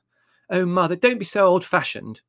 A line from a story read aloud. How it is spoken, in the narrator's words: said impatiently